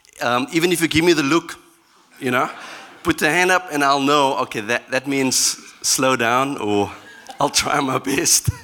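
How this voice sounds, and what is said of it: Hard-to-follow accent. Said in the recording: “my accent is not that easy to pick up”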